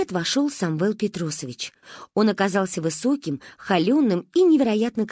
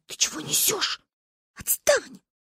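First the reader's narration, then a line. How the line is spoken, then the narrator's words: Hissed. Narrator (Russian): прошипела на меня Манька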